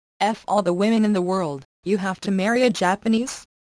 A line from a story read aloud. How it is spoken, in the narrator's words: he said